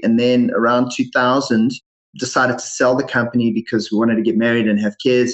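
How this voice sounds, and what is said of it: South African accent. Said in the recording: “my funny accent ... I was originally born in South Africa”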